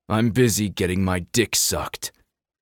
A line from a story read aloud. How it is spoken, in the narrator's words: Kai said through a growl